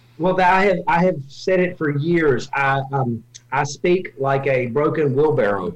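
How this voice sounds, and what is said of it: Southern North Carolina twang. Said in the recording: “have a little twang ... I am from North Carolina originally ... if I ever lost my accent”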